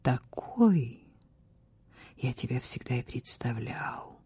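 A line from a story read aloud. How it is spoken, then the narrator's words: Quiet voice. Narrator (Russian): произнес король тихим голосом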